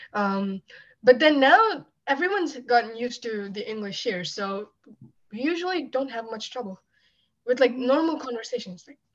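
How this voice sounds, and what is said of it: Indian accent in English. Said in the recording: “I love your accent... Your accent is so beautiful... It shows that you're a true Indian.”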